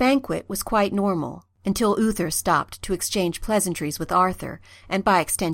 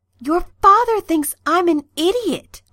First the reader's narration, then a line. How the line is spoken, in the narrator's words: Merlin said urgently, his eyes wild